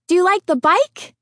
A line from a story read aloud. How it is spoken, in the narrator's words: Kristen chirped